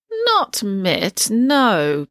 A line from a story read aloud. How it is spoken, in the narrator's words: President Sweet agreed in a quavery voice